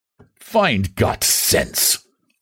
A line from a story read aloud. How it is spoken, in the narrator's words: muttered the prince cryptically